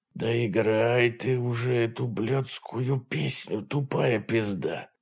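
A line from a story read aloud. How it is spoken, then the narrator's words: Very quiet whisper in ear. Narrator (Russian): Джейсон очень тихо шепчет в ухо Стефани, чтобы никто не мог услышать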